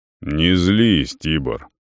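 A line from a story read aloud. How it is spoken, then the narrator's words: Calm with gloomy undertone. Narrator (Russian): спокойно, но с мрачными нотками в голосе сказал Нейтан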